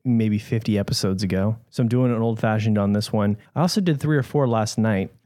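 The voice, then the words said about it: Slightly rough, hoarse voice. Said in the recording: “my voice is a little rough right now”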